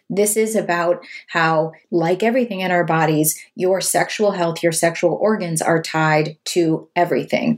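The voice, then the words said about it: Slightly hoarse, failing voice. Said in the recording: “I'm losing my voice a little bit today”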